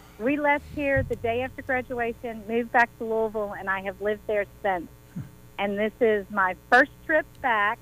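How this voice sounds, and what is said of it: Southern US twang accent. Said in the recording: “you have a southern twang”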